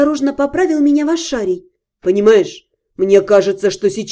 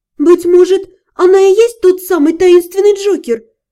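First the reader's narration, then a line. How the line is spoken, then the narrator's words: Timid suggestion. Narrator (Russian): робко предположила я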